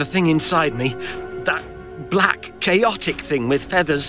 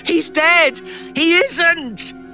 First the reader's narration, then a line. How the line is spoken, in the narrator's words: nearly screaming too, with the pain in my head